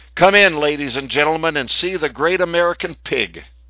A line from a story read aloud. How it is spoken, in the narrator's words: announcing loudly